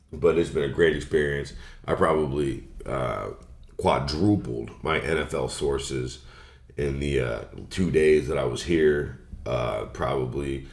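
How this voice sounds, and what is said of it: Scratchy, strained voice. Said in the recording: “my voice is scratchy, it's because I've been yelling in bars”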